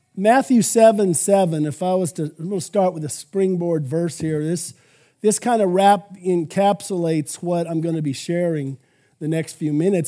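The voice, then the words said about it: Slightly hoarse, froggy voice. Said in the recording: “my voice is a little froggy”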